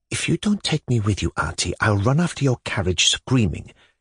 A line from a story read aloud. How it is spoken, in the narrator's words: she whispered rapidly and despairingly in Varvara Petrovna's ear